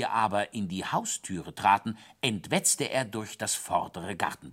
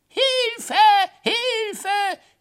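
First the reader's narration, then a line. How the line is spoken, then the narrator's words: Scream. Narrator (German): schrie der Hase vorm Fenster im Garten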